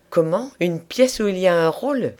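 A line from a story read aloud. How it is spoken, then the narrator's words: Astonished exclamation. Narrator (French): s'écria-t-elle stupéfaite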